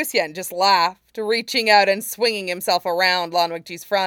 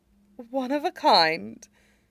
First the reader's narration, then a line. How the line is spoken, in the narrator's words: Jin Sichuan breathed